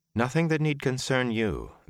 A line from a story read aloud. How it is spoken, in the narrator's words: the Aes Sedai said calmly